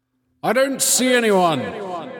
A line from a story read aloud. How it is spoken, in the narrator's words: he shouted to the other crew members